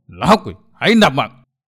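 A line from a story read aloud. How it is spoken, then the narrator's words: Shouted. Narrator (Vietnamese): Quát dứt, bang chủ Tư Đồ Huy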